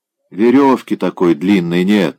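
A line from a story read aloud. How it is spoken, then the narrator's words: Sleepy reply from headman. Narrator (Russian): сонно отозвался староста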